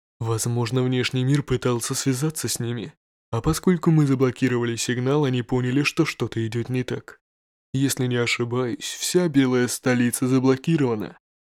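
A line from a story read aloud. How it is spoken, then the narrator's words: Soft-voiced man, analytical. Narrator (Russian): проанализировал мужчина с мягким голосом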